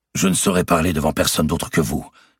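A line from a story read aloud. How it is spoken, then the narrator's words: Exclaiming. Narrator (French): s'écria Robert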